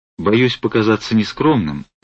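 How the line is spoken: Plain. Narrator (Russian): сказал он

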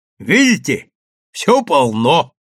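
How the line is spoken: Shouted. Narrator (Russian): крикнул Андреев

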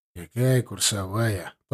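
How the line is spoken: Grumble. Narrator (Russian): проворчал замдиректора

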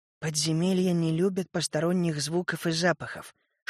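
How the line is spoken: Whispering. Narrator (Russian): шепотом объясняла мне Мири

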